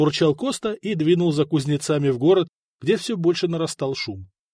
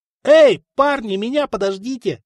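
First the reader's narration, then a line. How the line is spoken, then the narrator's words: Shouted. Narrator (Russian): заорал Коста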